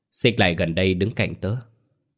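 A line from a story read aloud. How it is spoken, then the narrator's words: Soft, smiling. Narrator (Vietnamese): cậu nở một nụ cười nhẹ rồi khẽ nói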